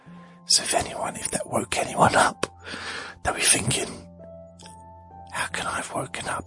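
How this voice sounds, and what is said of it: Whispering. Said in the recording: “I'm going to whisper now ... He's only whispering.”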